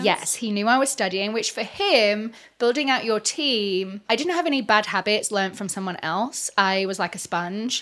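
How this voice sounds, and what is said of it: Speaks with a noticeable accent. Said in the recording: “obviously I've got an accent.”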